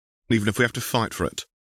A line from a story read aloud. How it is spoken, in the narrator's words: Tal said firmly